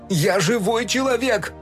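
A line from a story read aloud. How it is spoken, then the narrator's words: Yelling. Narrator (Russian): орал Фил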